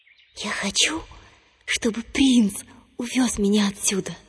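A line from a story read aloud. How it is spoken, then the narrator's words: Whisper into a well. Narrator (Russian): Наклонившись к колодцу, принцесса прошептала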